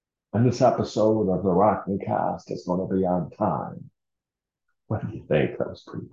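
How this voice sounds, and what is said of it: Usual voice. Nothing is said of it.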